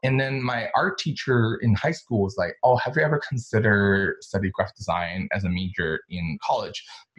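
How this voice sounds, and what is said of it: American accent. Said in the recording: “my American accent ... I have to credit my accent to Desperate Housewives and Gossip Girls ... I have a bitchy accent”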